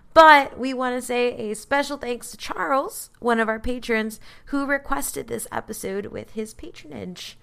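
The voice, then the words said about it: Gravelly, hoarse sick voice. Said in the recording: “I am sick today, so my voice is a little gravelly and like a smoker”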